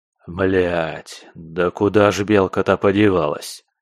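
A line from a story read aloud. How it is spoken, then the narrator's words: Growl under breath. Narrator (Russian): прорычал я себе под нос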